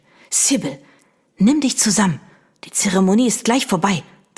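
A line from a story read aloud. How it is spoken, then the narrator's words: Mother hissing. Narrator (German): zischte ihre Mutter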